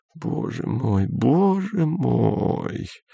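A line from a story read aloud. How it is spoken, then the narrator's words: Hoarse whisper. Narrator (Russian): хрипло прошептала Сельма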